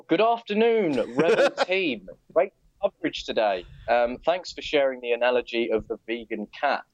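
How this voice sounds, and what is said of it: Speaks with a distinctive accent. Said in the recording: “you read in your wonderful accent”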